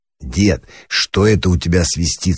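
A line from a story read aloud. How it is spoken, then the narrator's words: Plain. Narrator (Russian): спросил Пашка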